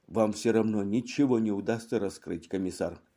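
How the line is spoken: Tired. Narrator (Russian): устало произнес Ван Дам

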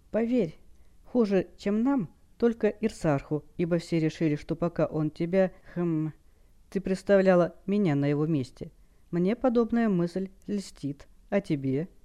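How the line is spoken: Heavy sigh. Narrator (Russian): Хэл тяжело вздохнула

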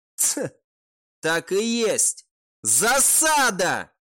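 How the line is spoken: Shouting. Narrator (Russian): прокричал он

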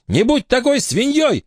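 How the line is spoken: Woman yelling. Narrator (Russian): заорала она

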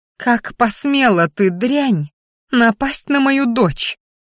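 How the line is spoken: Hissed. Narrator (Russian): Зашипела она

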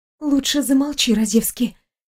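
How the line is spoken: Hissing in ear. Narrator (Russian): прошипела ей на ухо Виктория

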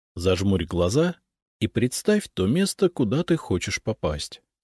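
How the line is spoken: Plain. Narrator (Russian): сказал я

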